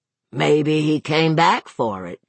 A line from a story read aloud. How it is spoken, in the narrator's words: the state police detective rumbled